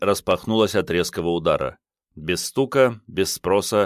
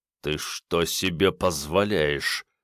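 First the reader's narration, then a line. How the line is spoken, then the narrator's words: Through clenched teeth. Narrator (Russian): Сквозь зубы процедил он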